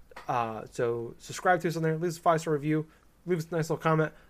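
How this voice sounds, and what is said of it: Rambling, very fast speech. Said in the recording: “I'm talking really fast.”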